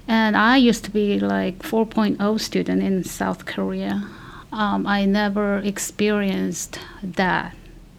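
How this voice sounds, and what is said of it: Korean-accented non-native English. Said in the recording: “I speak English with accent, but probably at that time it was worse”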